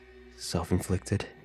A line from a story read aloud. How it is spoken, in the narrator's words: asked